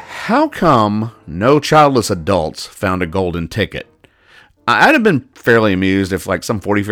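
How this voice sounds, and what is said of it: Usual voice. Nothing is said of it.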